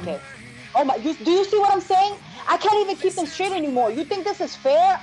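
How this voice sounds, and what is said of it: Screaming, loud passionate speech. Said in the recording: “I don't know why I'm screaming.”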